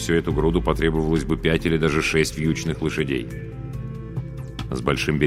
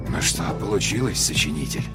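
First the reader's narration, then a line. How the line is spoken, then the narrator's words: Muttering to himself. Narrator (Russian): пробормотал человек сам себе под нос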